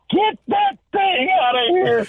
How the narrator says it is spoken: Hitch yelling at Backus

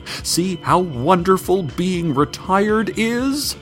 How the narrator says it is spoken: She shouted behind her as she sprinted away, smoke-fueled tears streaming from her sunken eyes

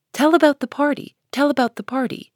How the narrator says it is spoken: two sleepy but eager voices cried out

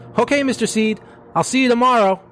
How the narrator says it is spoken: shouting as he went

